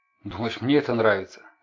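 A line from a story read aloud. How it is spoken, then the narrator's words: Sharp. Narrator (Russian): резко сказала Эйлин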